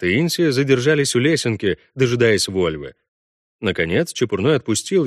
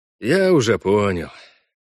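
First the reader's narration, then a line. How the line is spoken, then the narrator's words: Sighing. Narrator (Russian): вздохнул Парт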